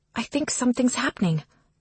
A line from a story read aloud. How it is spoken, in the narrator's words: Aurora whispers